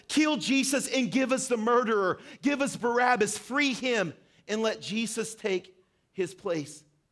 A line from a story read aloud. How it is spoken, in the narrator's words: the crowd begins to shout out